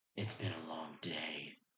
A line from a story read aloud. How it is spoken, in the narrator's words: he said gruffly